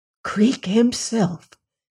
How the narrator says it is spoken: whispered across the car

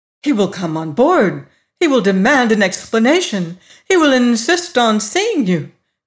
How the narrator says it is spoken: she cried

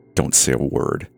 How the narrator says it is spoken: grunted

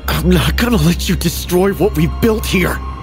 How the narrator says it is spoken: I gasped, my voice a mix of determination and fear as we grappled

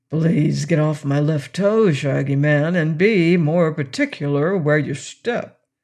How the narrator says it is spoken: Quox said to him grumblingly

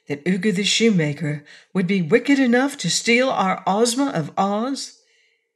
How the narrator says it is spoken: asked Dorothy anxiously

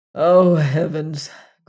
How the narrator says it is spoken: groaned Leonard

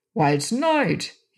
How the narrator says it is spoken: exclaimed

